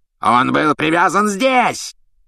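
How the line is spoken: Furious yelling. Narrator (Russian): с бешенством заорал палач Макнейр

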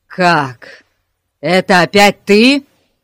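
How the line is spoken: Roaring policeman. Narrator (Russian): взревел полицейский

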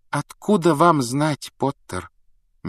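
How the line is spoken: Gentle objection. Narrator (Russian): мягко возразила МакГонагал

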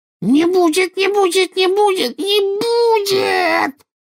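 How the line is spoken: Rising to a shriek. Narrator (Russian): Голос Кикимера поднялся до визга

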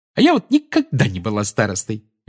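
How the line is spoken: Cheerful. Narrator (Russian): весело сказала Тонкс

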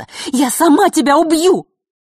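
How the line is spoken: Nearly shouted. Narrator (Russian): Последние слова она почти что выкрикнула

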